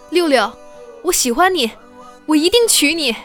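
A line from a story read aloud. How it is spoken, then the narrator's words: Very loud. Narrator (Chinese): 超大声地说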